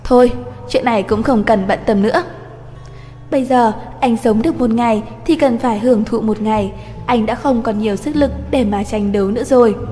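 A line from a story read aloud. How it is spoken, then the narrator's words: Sighing. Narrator (Vietnamese): Minh Thành Hữu thở dài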